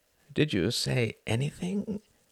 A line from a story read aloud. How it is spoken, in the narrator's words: asked Klaus, his voice soft